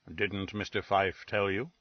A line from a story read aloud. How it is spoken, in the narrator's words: Wolfe murmured